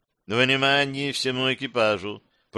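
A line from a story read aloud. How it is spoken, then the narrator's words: Lifeless mechanical voice. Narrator (Russian): произнесла Гера безжизненно механическим голосом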